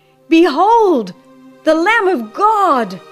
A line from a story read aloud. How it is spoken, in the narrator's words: Again the face of the prophet was lighted up with glory from the unseen, as he cried